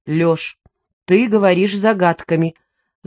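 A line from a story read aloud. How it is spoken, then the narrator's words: Stern. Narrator (Russian): заметила я строго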